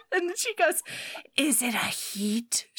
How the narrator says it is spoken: She gasped out

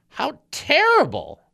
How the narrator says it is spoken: exclaimed the preacher's wife

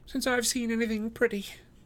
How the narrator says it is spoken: she gasps

